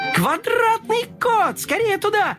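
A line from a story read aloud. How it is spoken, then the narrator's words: Group shouting. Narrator (Russian): закричали они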